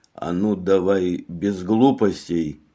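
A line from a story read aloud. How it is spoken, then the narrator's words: Calm. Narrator (Russian): спокойно сказал он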